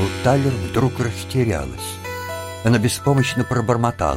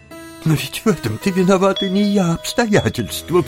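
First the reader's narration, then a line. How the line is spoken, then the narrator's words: Sobbing. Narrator (Russian): всхлипнула фрау Талер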